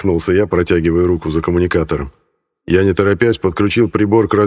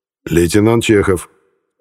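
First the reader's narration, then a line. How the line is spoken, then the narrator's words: Calm introduction. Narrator (Russian): спокойно представился я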